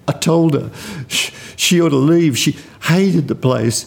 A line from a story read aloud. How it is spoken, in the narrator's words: gasped between sobs